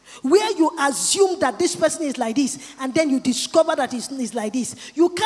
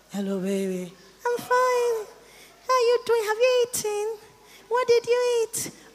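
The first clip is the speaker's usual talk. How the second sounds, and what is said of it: Sweet, affectionate phone-call voice. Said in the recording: “Everything I'm doing is telephone talk. And telephone talk is sweet talk ... behind this beautiful voice”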